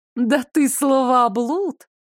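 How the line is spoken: Laughing. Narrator (Russian): рассмеялась Маржичка

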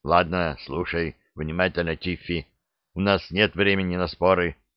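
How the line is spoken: Whispered. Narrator (Russian): прошептал док

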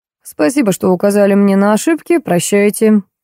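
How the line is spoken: Dry croak. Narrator (Russian): сухо каркнул дядька

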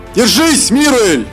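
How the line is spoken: Shout. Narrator (Russian): прокричал знакомый голос

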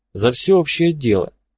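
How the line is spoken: Said uncertainly. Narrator (Russian): неуверенно сказал фармер

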